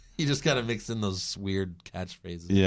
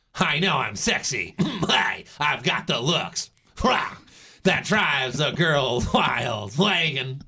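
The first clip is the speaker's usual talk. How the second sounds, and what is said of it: Imitates a cartoon character's voice. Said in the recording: “Professor Frink's voice ... Is that a good enough impression of ... Professor ... Frank?”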